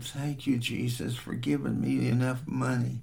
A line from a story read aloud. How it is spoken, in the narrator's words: He softly said